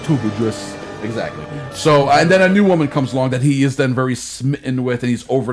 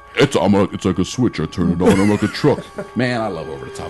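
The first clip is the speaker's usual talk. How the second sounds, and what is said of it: Sylvester Stallone impression. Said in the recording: “Over the top, like Sly Stallone. ... Hey, you got a fourth accent now. ... I've been doing Stallone for years.”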